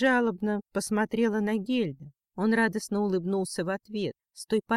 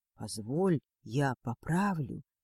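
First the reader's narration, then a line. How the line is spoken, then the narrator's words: Soft whisper. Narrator (Russian): тихо шепнул он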